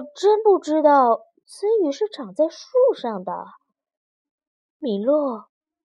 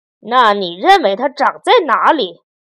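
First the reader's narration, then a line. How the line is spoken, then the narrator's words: Angry question. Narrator (Chinese): 本质伯爵愤怒地问道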